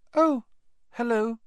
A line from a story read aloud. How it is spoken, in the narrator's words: he said, his voice much higher than usual